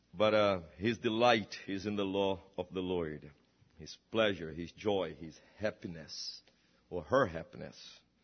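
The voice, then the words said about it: Speaker's own foreign accent. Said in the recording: “my accent seems to deteriorate a little bit ... all my accent is deteriorating”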